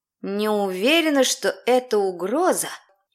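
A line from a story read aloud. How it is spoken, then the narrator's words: Whispered into emptiness. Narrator (Russian): прошептала уже в пустоту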